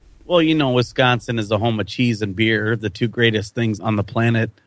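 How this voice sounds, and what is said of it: Wisconsin accent. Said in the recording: “sexy voice as well, and an accent. It's a Wisconsin accent”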